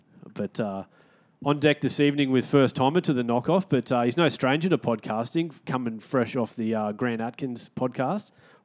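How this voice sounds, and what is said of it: Nasal, congested voice. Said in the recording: “Been a bit under the weather this week, so excuse the voice if I'm extra nasally.”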